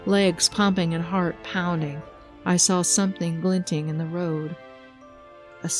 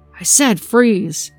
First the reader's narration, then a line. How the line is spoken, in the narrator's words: shouted the man